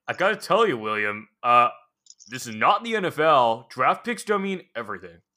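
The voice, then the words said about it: Imitates another person's voice. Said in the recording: “That was a good impression. ... You sound like somebody else.”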